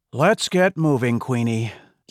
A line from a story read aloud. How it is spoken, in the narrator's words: Guillermo sighed